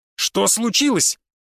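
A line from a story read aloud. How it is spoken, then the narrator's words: Impatient shout. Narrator (Russian): не выдержав, крикнул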